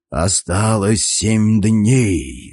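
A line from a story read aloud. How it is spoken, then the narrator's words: Sepulchral voice. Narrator (Russian): за могильным голосом произнес я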